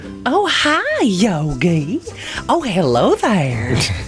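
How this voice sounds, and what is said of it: Cindy Bear, pronounced southern accent. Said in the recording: “She speaks with a pronounced southern accent.”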